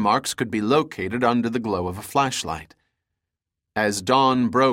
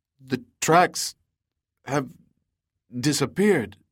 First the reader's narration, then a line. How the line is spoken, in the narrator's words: the scout stammered